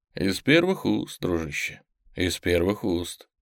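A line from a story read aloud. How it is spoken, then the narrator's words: Completely calm. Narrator (Russian): сказал Женя совершенно спокойно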